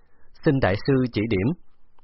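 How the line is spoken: Smiling. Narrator (Vietnamese): Mỉm cười nói

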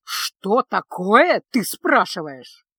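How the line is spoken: Acid hiss. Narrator (Russian): едко прошипел

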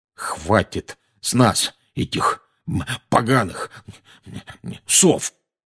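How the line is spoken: Muddled muttering. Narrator (Russian): бестолково бормотал дядя Вернон

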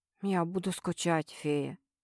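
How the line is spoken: Quiet. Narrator (Russian): тихо произнес Дежнёв

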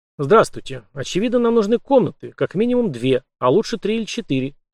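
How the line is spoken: Brisk, cheerful. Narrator (Russian): бодро начал Март

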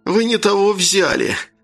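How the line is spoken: Whimpering. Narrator (Russian): захныкал Бурятин

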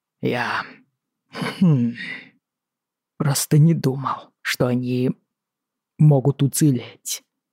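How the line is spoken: Muttered. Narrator (Russian): пробормотал он наконец

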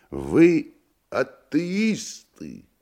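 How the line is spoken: Curious squealing question. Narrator (Russian): Иностранец спросил, даже привизгнув от любопытства

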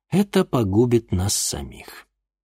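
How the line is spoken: Weary reply. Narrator (Russian): устало ответил Игорь

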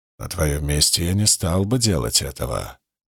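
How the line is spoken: Quiet. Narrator (Russian): тихо проговорил

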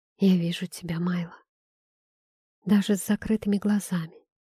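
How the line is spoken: Whispered, female. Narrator (Russian): прошептала она

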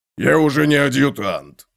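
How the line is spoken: Low booming drone. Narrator (Russian): прогудел бородач

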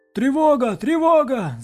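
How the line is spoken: Distant yell from wall. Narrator (Russian): заорал кто-то со стены

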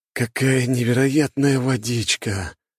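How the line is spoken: Moaning. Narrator (Russian): простонал цесаревич

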